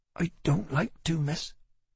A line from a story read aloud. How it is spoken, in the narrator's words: mumbled